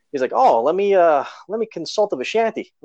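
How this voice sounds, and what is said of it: Mild New York accent. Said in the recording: “He has kind of like a New York accent... it's not like over exaggerated”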